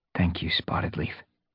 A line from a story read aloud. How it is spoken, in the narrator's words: Fireheart murmured